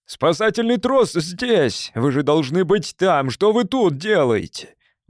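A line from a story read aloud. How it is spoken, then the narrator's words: Sudden louder shout. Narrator (Russian): Он вдруг закричал еще громче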